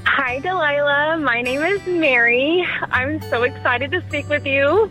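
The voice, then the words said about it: Excited, bubbly voice. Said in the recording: “You sound excited. You sound bubbly.”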